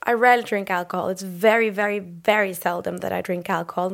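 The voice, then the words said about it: Hoarse, worn-out voice. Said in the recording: “that's where my voice went a bit ... it sounds like I've been drinking the whole week”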